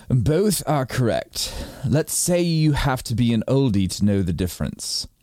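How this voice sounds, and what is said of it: Put-on British accent. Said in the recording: “do you want me to use a British accent to do it? Yes.”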